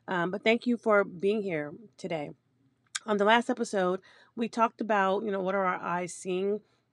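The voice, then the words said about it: Hoarse voice. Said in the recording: “I'm still a little hoarse. ... I just don't sound great”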